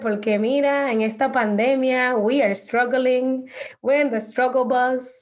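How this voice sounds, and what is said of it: Dominican accent. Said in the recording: “I love when you guys speak in Spanish with your Dominican accent. It's so beautiful.”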